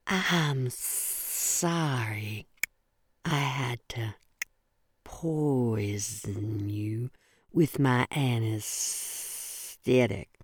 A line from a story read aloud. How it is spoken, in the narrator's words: my serpent grandmother said in a lyrical voice that clicked as though she had marbles in her mouth